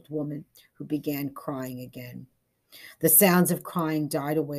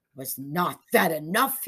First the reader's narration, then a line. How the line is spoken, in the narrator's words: he demanded angrily